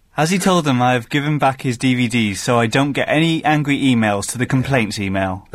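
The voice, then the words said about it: Funny Welsh-accented imitation of someone. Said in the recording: “In your best Mr. Hooker voice. ... He's more Welsh than you, is he? ... just do a Hooker voice. ... Do the voice you were doing earlier on. It's really funny.”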